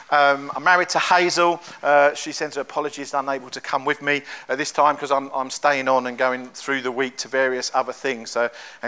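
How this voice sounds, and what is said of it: London English accent. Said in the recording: “I'm from London. You can probably tell from my accent.”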